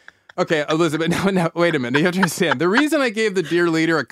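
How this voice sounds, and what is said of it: Usual voice. Nothing is said of it.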